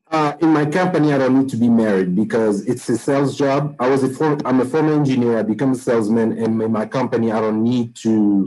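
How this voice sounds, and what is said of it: Accented English, poor microphone. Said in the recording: “Your microphone is really bad. And then you have an accent.”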